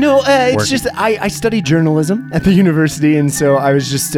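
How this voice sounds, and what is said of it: Usual voice. Nothing is said of it.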